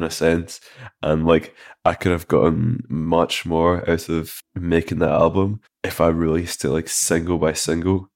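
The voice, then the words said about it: Thick accent. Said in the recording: “That thick accent is deep.”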